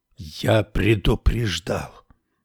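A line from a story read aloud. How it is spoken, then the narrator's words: Hoarse whisper. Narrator (Russian): Голос Муснакафа превратился в хриплый шепот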